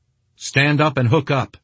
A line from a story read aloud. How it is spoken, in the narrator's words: he called out